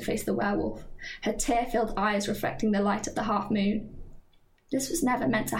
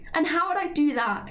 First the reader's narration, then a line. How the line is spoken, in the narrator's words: She cried, throwing her hands up in frustration